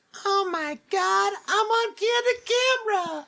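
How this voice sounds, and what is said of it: Squeaky, high imitated voice. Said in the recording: “I can't do a Jennifer Tilly voice... such a distinct, bizarre, squeaky little voice”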